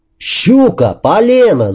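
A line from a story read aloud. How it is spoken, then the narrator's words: Excited shouting. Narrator (Russian): заорал тот, который плавал на резинке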